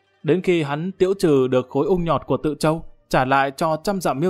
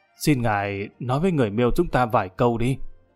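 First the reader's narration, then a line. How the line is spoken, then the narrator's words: Amused, anxious, lowered voice. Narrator (Vietnamese): lão đầu này vừa tức cười lại vừa thấp thỏm lo lắng, hạ giọng nói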